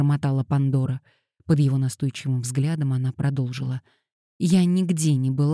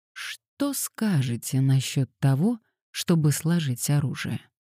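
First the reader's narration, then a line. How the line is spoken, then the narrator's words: Soft, gentle. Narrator (Russian): мягко предложил он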